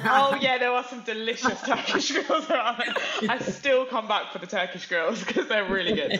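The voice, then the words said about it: Slight Essex twang accent. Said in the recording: “I can hear a twang in your accent. I can hear a bit of Essex.”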